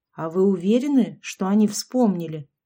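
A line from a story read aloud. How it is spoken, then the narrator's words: Plain. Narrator (Russian): спросила Габриэла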